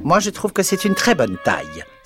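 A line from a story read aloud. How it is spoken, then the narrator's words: Caterpillar's furious exclamation. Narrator (French): s'exclama la chenille d'un ton furieux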